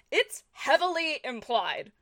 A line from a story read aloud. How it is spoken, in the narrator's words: shouted Eggsy